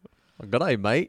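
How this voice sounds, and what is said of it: Put-on Australian accent. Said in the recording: “give me your best Australian accent”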